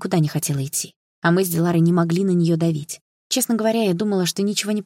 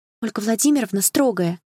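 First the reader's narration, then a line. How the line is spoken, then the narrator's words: Mutter. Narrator (Russian): пробормотала Лина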